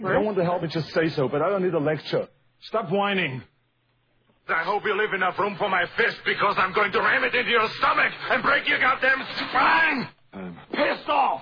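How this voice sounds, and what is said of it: Angry shouting. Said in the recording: “He seemed angry at the end. ... He does get kind of angry sometimes.”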